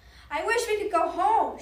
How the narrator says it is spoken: shouted Annie

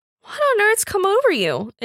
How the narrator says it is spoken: exclaimed John, with the first throb of rousing indignation

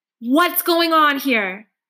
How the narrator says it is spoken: she yells

